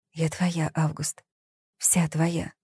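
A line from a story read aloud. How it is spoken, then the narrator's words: Whisper. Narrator (Russian): она прошептала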